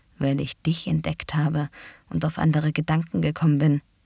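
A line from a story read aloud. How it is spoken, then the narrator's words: Muffled murmur. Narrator (German): murmelte er an ihren Hals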